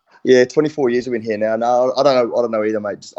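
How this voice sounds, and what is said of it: New Zealand accent. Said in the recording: “how on earth have you not lost that New Zealand accent?”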